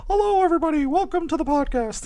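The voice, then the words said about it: Imitates another person's voice. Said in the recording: “Pretty good impression.”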